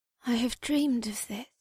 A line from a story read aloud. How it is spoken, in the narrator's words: Bulra said in an odd voice